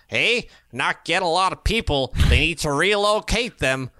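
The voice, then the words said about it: Put-on Toronto accent. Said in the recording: “That's my Toronto accent. See, I've been working on my accents. ... That was fantastic.”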